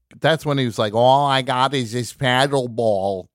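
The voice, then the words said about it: Bad Jerry Lewis impression. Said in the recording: “that was me doing a bad Jerry Lewis impression”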